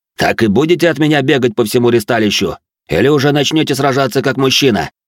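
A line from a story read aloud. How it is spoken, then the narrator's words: Barked. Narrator (Russian): Рявкнул он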